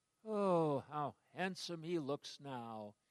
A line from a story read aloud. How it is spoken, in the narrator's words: his parents would sigh